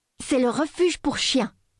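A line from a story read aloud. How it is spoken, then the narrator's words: Thundering. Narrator (French): tonna-t-elle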